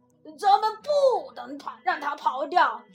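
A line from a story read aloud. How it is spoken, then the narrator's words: Loud speech. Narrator (Chinese): 邦斯大声说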